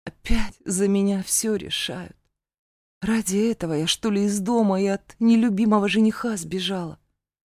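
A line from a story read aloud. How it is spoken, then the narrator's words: Sighing, bitter grumbling. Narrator (Russian): вздохнув, подтвердила и, горько усмехнувшись, заворчала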